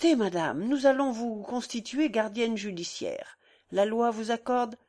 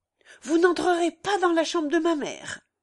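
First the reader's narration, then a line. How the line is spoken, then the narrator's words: Young man's thunderous shout. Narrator (French): s'écria d'une voix formidable le jeune homme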